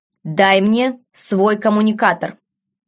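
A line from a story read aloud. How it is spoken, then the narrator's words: Stern command. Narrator (Russian): неожиданно строгим тоном приказал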